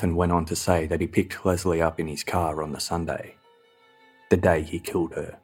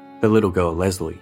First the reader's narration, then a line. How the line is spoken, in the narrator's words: Stefan answered